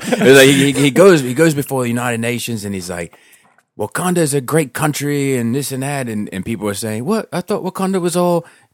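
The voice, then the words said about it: Poor imitation of an Australian accent. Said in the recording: “then he's Australian ... I'm doing a terrible impression.”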